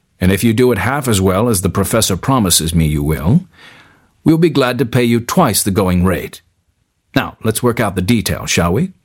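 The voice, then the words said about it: Strong American accent. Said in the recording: “with a strong American accent”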